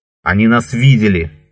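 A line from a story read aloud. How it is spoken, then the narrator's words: Shouted. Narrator (Russian): крикнул Леон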